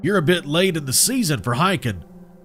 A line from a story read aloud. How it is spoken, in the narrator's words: he said, his voice gravely from years of cigarettes and too much solitude